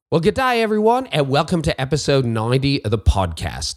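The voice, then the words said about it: Bad fake Australian accent. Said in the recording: “my really bad fake Australian accent”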